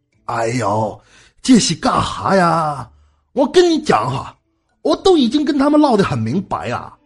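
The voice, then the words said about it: Northeastern Chinese accent. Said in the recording (Chinese): “您到底是香港的还是鹤岗的？...在东北待久了，口音有些香炮”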